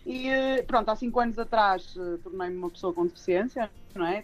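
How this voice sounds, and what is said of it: Porto accent, northern European Portuguese. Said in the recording (Portuguese): “sou do Porto, devem reparar o sotaque”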